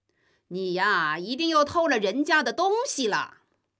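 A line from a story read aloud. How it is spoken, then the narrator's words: Deliberate loud shouting. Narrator (Chinese): 他们又故意的高声嚷道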